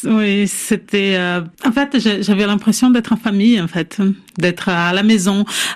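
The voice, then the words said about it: Brazilian accent in French, sing-song. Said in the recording (French): “votre accent brésilien ... Ça chante, ça danse.”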